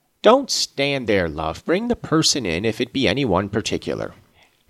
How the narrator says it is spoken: he exclaimed quickly

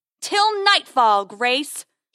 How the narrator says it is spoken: bellows again

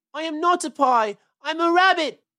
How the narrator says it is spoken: wailed Peter suddenly

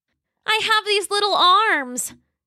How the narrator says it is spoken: Roxy cried

